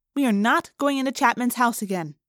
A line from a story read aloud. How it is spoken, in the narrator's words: she said firmly